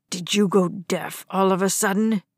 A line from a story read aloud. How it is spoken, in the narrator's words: Dad growled